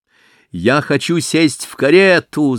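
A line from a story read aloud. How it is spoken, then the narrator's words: Child's shout. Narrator (Russian): закричала маленькая разбойница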